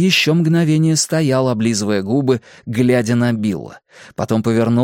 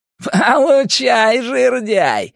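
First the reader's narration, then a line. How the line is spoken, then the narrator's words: Half shouting, half laughing. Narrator (Russian): Генри по-прежнему то ли кричал, то ли смеялся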